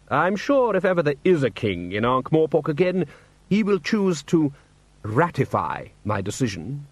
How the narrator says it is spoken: said Vetinari smoothly

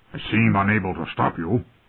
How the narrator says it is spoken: Robert grumbled

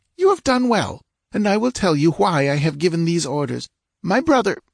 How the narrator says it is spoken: She faltered, choking

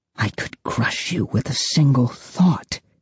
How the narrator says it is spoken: I whisper

